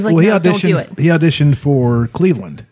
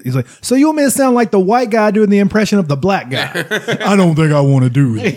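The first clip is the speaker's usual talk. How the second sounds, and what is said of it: Imitates another person's voice. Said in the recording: “That's my Ron Funches impression. That's my Hell Ron Funches impression. It's pretty good.”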